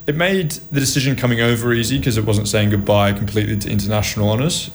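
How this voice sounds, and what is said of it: Australian accent. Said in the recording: “an archetypal Australian. And, you know, your accent”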